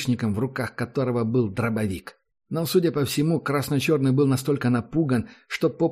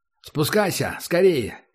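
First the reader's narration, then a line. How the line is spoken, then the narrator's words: Shout. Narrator (Russian): крикнул он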